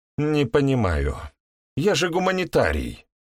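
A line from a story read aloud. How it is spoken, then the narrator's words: Sighed. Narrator (Russian): вздохнула Лидка, выпускница педагогического института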